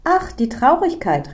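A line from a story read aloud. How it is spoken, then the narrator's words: Delighted warm greeting. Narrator (German): rief die kleine Frau erfreut aus, als würde sie eine alte Bekannte begrüßen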